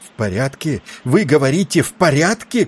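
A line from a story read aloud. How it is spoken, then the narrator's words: Frantic shout. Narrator (Russian): кричал не своим голосом Тиндал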